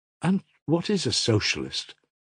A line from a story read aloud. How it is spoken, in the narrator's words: asked Smurov